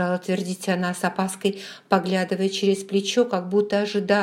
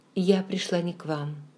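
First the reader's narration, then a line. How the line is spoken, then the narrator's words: Quiet. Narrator (Russian): тихо сказала она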